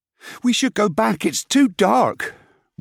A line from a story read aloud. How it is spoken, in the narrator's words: Wig moaned